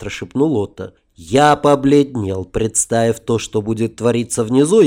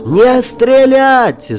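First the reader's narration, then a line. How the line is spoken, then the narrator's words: Shouting with all might. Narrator (Russian): что из силы закричал я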